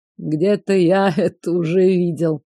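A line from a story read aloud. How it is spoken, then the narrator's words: Thoughtful drawl. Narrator (Russian): задумчиво протянул Кент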